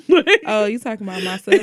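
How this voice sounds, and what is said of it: New Orleans accent. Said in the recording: “this fucking accent ... her fucking New Orleans accent”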